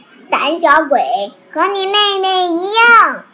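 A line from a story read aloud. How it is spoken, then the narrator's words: Shouting. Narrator (Chinese): 咖啡嚷道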